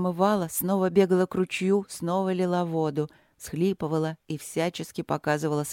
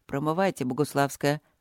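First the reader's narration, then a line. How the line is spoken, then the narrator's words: Grumbled through clenched teeth. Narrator (Russian): буркнул он, опять сжимая зубы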